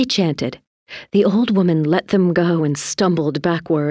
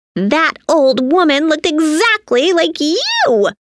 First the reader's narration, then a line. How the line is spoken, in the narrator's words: Tina and Timmy screamed